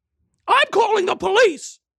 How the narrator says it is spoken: shouted a woman

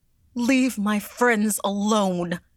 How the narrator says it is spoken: she cried

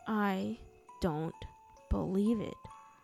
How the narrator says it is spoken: she said slowly

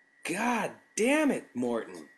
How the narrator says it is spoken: I yelled

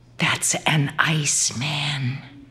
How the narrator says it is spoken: whispered

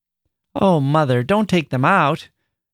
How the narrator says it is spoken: Annie cried

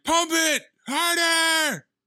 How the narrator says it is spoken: Tim is just in the background yelling

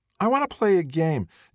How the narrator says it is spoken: Jaden whines

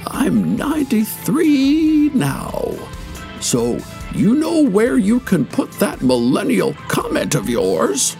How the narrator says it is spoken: He then said hoarsely

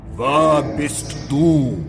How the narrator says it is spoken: boomed

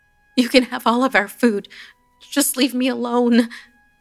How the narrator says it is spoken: I pleaded

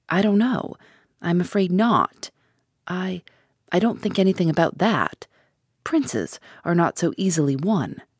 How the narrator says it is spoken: she murmured

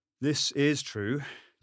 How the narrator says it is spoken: Jason sighed

